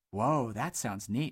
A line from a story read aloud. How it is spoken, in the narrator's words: muttered Buck excitedly